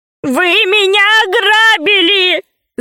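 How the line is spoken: Shout. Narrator (Russian): закричал пигмей

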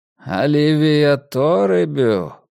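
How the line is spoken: Drawled. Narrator (Russian): протянул Рокки

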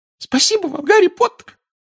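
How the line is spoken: Squeaked. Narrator (Russian): пропищал Добби

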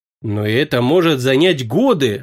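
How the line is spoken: Exclaiming. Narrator (Russian): воскликнула Клара

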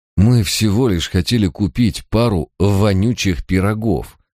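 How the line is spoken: Muttered through teeth. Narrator (Russian): процедил Барак

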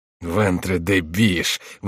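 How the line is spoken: Grumbling. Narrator (Russian): ворчал Шико

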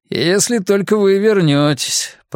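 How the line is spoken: Grumbled. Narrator (Russian): проворчал он

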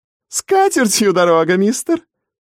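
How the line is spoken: Guffawing, called after. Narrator (Russian): расхохоталась вдогонку матушка Пэм

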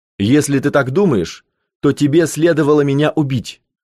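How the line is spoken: Angry. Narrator (Russian): зло сказал Томми

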